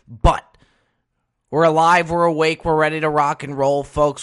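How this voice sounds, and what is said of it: Raspy morning voice. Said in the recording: “gotta work on that voice a little bit. A little raspy here this morning... I really shouldn't be raspy”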